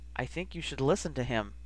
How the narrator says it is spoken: Remus said quietly

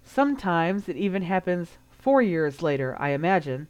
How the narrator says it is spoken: Harry replied, his tone even

